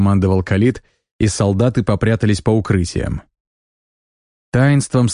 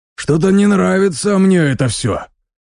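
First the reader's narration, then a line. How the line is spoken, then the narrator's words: Grumbling soldier. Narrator (Russian): проворчал один из солдат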